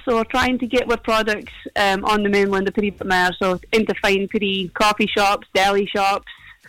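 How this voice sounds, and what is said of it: Mild regional accent. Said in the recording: “My accent's no even that strong”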